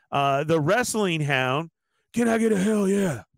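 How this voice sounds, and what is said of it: Stone Cold Steve Austin impression. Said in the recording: “That's my best Austin. I can't do it like”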